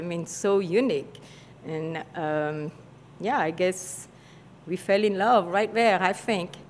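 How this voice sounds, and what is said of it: French accent. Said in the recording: “That French accent”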